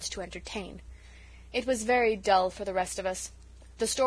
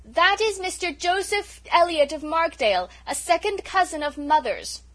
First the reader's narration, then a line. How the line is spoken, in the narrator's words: Cecily, shouting